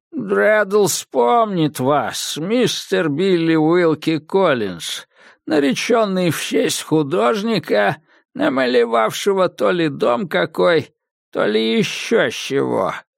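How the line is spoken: Hoarse rasp. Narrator (Russian): прохрипел красномордый субъект

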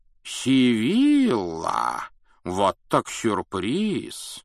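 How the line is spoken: Surprised exclamation. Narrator (Russian): воскликнул Дамблдор

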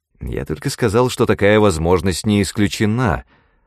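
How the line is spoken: Irritated answer. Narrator (Russian): раздраженно ответил магнат

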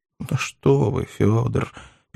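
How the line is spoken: Sad muttering. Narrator (Russian): печально буркнул Филипп Филиппович

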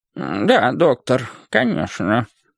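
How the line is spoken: Old man mumbling. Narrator (Russian): промямлил старик

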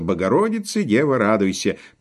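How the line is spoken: Laughing loudly. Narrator (Russian): хохотал во все горло

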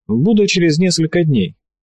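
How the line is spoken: Cheerful promise. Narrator (Russian): бодро пообещал он

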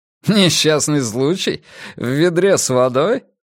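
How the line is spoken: Laughing. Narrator (Russian): Фредерик смеялся

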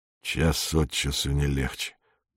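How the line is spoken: Muttered. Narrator (Russian): пробормотал Быков

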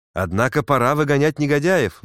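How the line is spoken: Exclaimed. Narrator (Russian): воскликнул Пенкроф

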